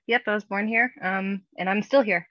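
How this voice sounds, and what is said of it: Pittsburgh-area accent. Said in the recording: “Pittsburgh area ... I can tell by the accent.”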